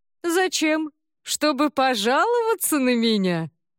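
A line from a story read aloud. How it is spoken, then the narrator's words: Loud laughing. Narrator (Russian): Клинт Иствуд громко рассмеялся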